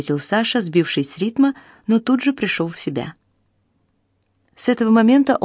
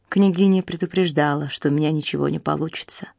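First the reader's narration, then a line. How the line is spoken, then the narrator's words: Dejected admission. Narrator (Russian): уныло признался Саша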